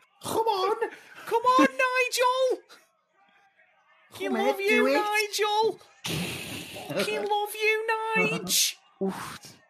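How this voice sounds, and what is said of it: Put-on Scouse accent, shouting. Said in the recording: “the fucking Scouse accent”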